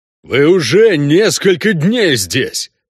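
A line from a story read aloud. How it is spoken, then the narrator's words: Booming, less loud. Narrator (Russian): прогудел Шак Тарум уже не так громко, как раньше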